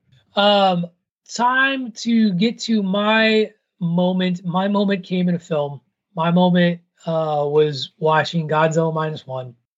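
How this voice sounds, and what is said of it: Hoarse, strained voice. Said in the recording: “losing my voice a little bit”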